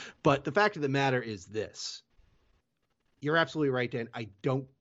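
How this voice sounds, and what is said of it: Usual voice. Nothing is said of it.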